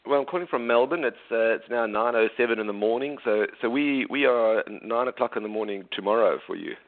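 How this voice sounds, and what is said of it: South African accent, slightly Australian. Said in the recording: “I'm South African by birth ... People here in Australia do recognize that my accent is different. But when I go back to South Africa and see family, they think I've got a little bit of an Australian accent.”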